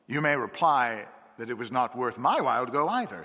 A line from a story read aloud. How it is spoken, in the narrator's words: he said